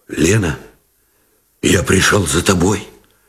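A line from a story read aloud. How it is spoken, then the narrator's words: Muffled, hoarse. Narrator (Russian): Глухо и хрипло выговорил Новиков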